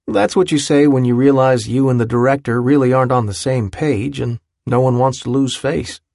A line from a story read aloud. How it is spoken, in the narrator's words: he said